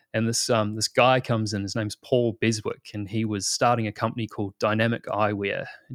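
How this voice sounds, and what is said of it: New Zealand accent. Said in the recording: “you probably tell by the accent, I'm originally from New Zealand”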